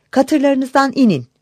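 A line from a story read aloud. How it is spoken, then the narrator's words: Crying out. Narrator (Turkish): diye haykırmış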